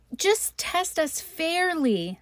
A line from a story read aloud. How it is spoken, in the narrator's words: they exclaimed